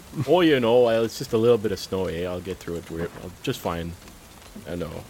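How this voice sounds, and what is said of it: Exaggerated local Canadian-style accent. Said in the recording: “I reverted back to my movie. To my localized accent”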